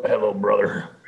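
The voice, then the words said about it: Imitates a wrestler's voice. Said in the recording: “gotta do the Hulk Hogan voice”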